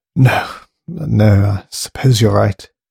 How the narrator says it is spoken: she sighed bleakly

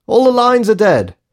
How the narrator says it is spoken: yelled Morgan, anxiously over the din

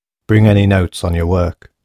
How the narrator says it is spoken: had grunted Burns

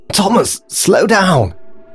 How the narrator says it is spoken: gasped Grace in exhaustion

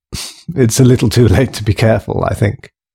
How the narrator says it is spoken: she laughed grimly

